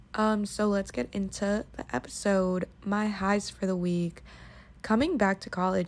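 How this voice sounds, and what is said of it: Tired-sounding voice. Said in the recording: “I sound really tired”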